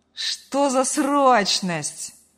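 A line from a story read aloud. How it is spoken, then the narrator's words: Lazy reply. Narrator (Russian): лениво откликнулся сын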